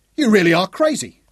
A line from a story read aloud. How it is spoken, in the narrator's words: Jock yelled